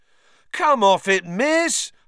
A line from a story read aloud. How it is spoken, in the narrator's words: howled Fred